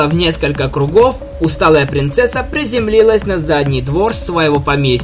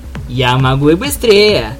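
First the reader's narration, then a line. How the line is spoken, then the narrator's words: Laughing speech. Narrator (Russian): Посмеявшись, Твайлайт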